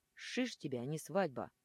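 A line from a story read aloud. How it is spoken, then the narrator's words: Burly man growling. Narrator (Russian): рычал кучерявый качок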